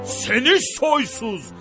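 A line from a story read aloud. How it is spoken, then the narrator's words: Shouts. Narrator (Turkish): diye bağırır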